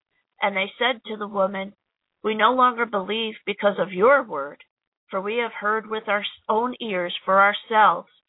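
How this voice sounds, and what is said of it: Strained, hoarse voice. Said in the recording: “I'm losing my voice here. It's a very long gospel.”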